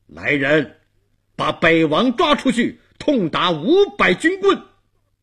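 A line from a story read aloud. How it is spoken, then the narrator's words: Loud angry shout. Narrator (Chinese): 他高声怒喝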